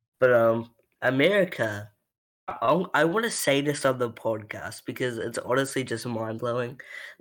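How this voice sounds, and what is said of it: Accent often mistaken for British. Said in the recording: “everybody thinks I'm from the UK ... I know I have an accent ... I know I have an accent, but, like, I'm not from the UK.”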